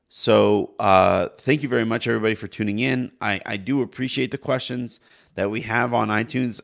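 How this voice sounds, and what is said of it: Strained, worn-out voice. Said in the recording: “save what is left of my voice here, because I sound awful ... my voice permitting”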